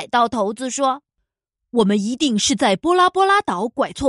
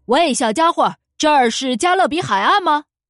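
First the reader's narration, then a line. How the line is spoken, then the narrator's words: Pirate captain shouting. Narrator (Chinese): 海盗头子对我叫道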